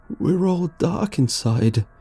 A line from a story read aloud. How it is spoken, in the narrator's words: the guy sobbed